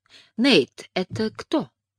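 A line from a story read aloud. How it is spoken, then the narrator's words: Sugary voice. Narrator (Russian): спросил Нейл тем же сахарным голосом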